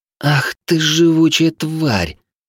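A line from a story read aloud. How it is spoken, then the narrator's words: Hateful, through teeth. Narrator (Russian): с ненавистью процедила помятая всполох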